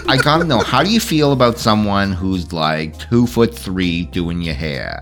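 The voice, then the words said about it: New Jersey accent. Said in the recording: “New Jersey. Can't you tell from my accent? ... I could. You're right.”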